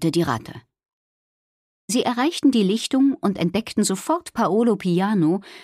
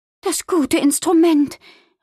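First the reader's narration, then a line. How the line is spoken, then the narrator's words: Worried exclamation. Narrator (German): rief sie besorgt aus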